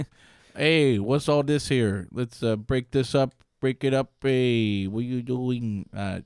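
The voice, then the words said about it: Bad put-on accent slipping to New York. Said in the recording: “Lost the accent... just went to New York. It was really bad... You tanked that one.”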